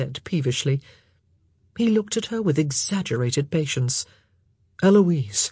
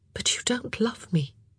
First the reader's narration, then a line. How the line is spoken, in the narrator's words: she said, her voice soft